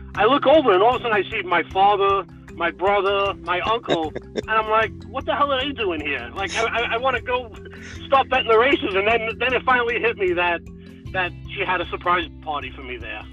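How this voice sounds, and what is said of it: New Jersey accent. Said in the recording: “by the sound of your accent, you're from New Jersey.”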